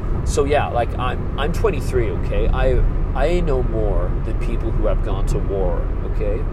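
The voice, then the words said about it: Imitated West Coast American voice. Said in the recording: “I keep stuffing up all the vowel sounds when I'm doing impersonations, particularly like with some kind of West Coast voice”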